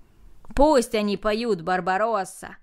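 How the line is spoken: Shouting crowd. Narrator (Russian): закричали остальные

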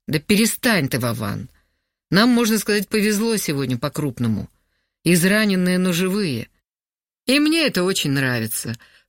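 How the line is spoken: Short laugh. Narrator (Russian): хохотнул Витя

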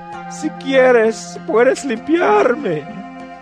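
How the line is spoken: Kneeling plea. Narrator (Spanish): de rodillas le suplicó

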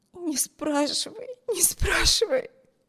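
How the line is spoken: Hysterical sobbing. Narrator (Russian): разразилась истерическими рыданиями

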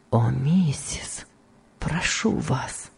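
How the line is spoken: Weak voice. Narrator (Russian): сказал Том слабым голосом

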